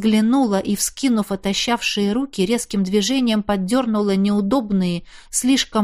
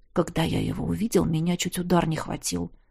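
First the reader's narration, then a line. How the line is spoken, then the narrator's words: Barely audible. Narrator (Russian): едва слышно уронил Тис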